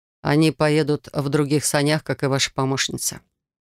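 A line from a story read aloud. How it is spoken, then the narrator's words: Calm explanation. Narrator (Russian): спокойно пояснил Рейган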